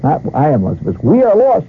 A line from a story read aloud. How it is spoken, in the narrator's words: captain shouted